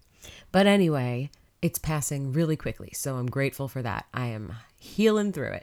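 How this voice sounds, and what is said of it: Congested, nasal voice from a cold. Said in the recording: “I have a cold, so that's why I sound like I'm holding my nose.”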